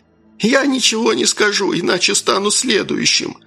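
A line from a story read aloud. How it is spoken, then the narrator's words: Squeak. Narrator (Russian): пискнул он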